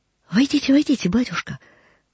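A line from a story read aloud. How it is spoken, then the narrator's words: Joyful whisper. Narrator (Russian): прошептала она, чувствуя, как ликует сердце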